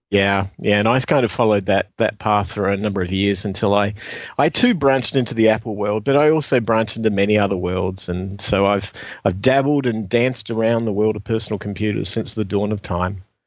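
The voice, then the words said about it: Strong Australian accent. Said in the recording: “a strong Aussie twang ... you still haven't shaken your accent”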